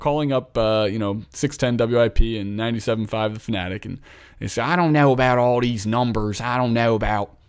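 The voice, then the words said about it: Put-on Philadelphia accent. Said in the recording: “this is my Philadelphia accent ... that was a horrible Philly accent. ... that's pretty spot on. It's like almost like Cockney ... that sounded like a little bit of a southern accent.”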